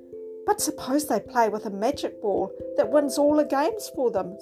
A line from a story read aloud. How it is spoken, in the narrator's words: suggested Humpty anxiously